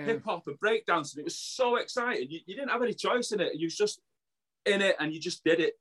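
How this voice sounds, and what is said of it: Local Burnage accent. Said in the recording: “I'm from Burnage, Firetown, you know, you can probably tell that with the accent”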